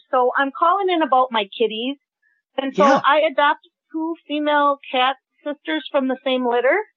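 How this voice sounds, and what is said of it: Wisconsin regional accent. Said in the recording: “I'm located in Sun Prairie, Wisconsin ... we've got an accent for sure”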